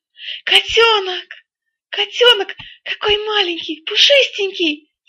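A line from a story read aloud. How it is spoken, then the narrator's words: Delighted shout. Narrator (Russian): закричала от восторга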